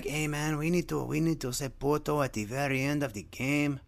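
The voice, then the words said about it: Exaggerated put-on Mexican accent. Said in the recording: “my Mexican accent sounds like Speedy Gonzalez... Not all my accents are perfect”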